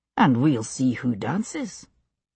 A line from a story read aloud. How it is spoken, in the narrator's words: he said under his breath